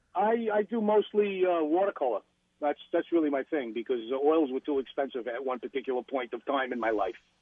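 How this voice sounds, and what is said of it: New York accent. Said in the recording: “Is that a New York accent? ... this guy with this New York accent”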